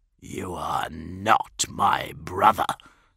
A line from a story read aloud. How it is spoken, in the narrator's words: spat Ferrus through the blood of his ruined face